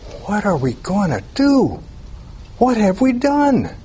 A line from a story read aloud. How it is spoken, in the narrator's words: they cried out